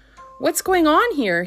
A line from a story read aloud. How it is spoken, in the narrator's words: called out cheerfully from beneath the enormous board